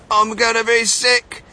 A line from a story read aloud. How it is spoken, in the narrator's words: yelled Mrs